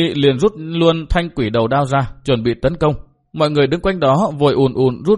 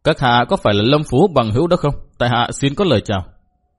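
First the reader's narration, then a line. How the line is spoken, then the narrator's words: Raised voice. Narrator (Vietnamese): Cao giọng nói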